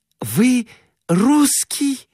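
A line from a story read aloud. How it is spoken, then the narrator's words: Exclaiming. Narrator (Russian): воскликнула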